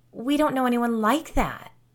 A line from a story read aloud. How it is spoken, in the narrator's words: Alicia whined